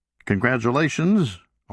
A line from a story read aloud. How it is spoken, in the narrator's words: O'Brien had said